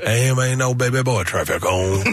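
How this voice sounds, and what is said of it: Imitates another person's voice. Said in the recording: “I'm really bad with accents. Every accent turns into a Swedish dude. But hers all of a sudden morphs into like Buford T. Justice.”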